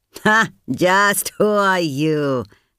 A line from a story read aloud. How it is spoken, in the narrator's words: would ask with a sneer